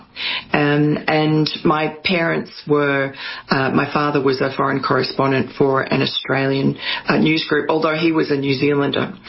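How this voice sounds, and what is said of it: Australian accent. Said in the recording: “you've got a nice, beautiful accent ... the accent is Australian”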